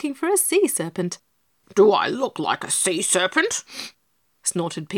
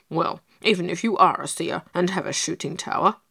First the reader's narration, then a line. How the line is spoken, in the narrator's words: grunted Pigasus, gathering courage as he went along